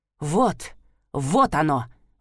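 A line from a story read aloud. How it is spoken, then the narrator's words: Indignant mutter. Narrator (Russian): возмущенно пробормотала Лирайя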